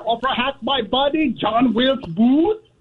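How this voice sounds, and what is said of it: Shifting mix of foreign accents. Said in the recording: “I've heard like four different accents... I can't determine what accent this is... I've heard British... Italian... Kenyan... I've heard Asian... I've heard like five different accents... It's got them all.”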